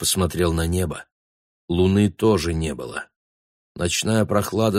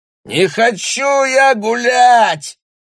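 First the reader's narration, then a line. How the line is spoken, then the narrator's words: Yelling. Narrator (Russian): орал Бруно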